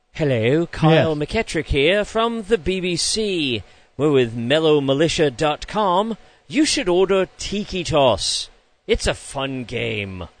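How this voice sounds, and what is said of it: Put-on English BBC accent. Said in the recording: “I can do a pretty good impersonation of all of them ... Do they have an English accent, like from the BBC”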